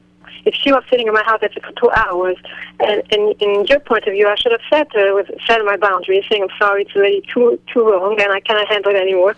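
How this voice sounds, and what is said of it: Tense, stressed tone. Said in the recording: “tone of voice? ... how stressful it sounds? ... the tension in the voice”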